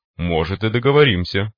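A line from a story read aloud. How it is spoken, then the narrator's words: Magnanimous chuckle. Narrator (Russian): великодушно хмыкнул майор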